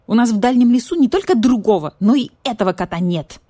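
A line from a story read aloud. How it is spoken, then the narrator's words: Snapping retort. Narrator (Russian): огрызнулся барсукот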